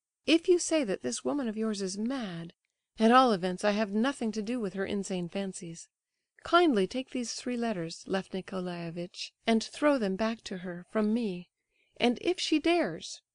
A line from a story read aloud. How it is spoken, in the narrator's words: cried Aglaya suddenly, much louder than before